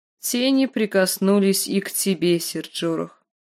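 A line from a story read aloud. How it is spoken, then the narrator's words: Plain. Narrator (Russian): сказала она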